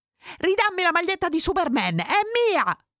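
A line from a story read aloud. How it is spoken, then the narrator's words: Shouting. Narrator (Italian): avevo gridato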